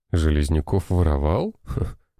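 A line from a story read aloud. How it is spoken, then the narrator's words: Skeptical scoff. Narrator (Russian): хмыкнул Роман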